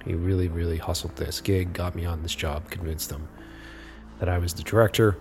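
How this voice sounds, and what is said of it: Slightly raspy voice. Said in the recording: “my voice is a little raspy, ... it's because I spent all day sort of yelling out commands”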